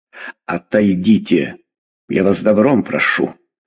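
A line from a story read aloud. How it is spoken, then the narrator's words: Hiss through teeth. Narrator (Russian): прошипел сквозь зубы Черепец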